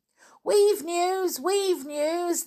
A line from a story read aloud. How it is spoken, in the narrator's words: they cried